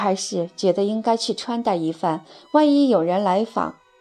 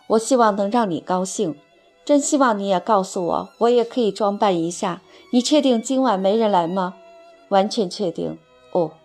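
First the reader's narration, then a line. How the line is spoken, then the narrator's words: Smiling reply. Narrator (Chinese): 他微笑着回答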